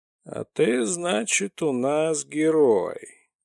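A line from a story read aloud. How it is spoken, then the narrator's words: Menacing grumble. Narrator (Russian): грозно пробурчал шаман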